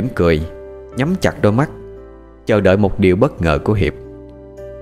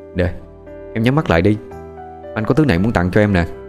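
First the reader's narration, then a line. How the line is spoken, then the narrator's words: Tender murmur. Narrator (Vietnamese): Hiệp thủ thỉ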